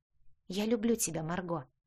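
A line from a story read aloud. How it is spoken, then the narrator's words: Soft whisper in ear. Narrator (Russian): прошептал тихо на ухо Бенедикт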